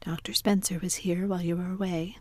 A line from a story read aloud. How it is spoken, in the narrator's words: said Marilla